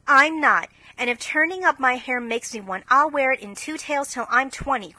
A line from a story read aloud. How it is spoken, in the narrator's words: cried Jo